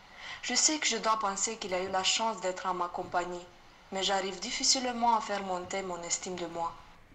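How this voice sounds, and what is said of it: Eastern European accent. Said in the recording (French): “très joli accent qui nous vient, je l'imagine, euh, quelque part de l'Est de l'Europe”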